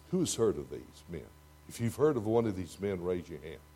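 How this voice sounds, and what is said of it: Texas accent. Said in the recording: “my Texas accent”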